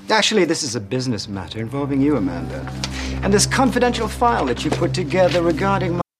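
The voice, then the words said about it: Inconsistent accent, slipping into English. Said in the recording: “What is this accent? ... It's all over the map. This actor is English, but the character apparently is not supposed to be, but he doesn't remember that all the time.”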